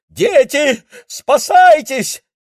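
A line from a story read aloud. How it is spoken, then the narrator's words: Screaming. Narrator (Russian): закричала она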